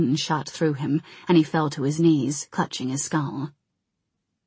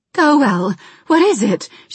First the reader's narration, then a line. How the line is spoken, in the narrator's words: she cried